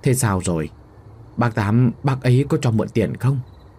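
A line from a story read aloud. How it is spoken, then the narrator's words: Trembling, pressing question. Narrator (Vietnamese): Bà run rẩy gặng hỏi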